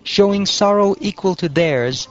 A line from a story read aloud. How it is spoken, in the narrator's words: they cried out